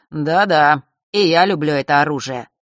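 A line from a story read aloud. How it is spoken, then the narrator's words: Mocking drawl. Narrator (Russian): насмешливо протянул он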